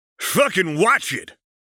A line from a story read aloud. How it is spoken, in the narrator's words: Dave's brother shouted